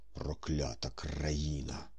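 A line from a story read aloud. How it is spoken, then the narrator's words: Muttering. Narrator (Ukrainian): бурмотів Корейко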